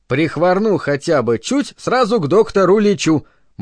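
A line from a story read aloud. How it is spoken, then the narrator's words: Cheerful recitation. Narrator (Russian): бодро процитировал он гипнопедическую поговорку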